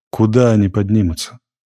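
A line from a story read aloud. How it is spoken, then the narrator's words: Sad. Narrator (Russian): сказал странник печально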